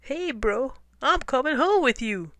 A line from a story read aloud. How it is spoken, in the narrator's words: Tacky chirped